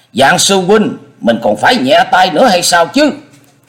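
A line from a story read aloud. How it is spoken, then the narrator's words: Irritated loud shout. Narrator (Vietnamese): Thạch Xuyên bực quá, giọng quát lớn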